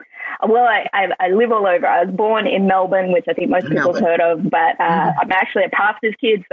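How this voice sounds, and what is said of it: Australian accent. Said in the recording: “I love your accent. I love that you were from Australia”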